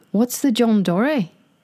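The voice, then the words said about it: Attempted Australian accent, sounding Irish. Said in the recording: “Do I need to do it in the Australian accent? ... You got to try at least ... That sounded Irish then. ... I always go into Irish when I'm trying to do Australian. ... we're going to butcher these accents”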